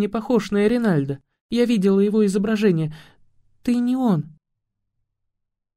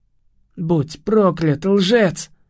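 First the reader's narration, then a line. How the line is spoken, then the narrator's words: Hissing, demonic language. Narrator (Russian): прошипел Кай на языке демонов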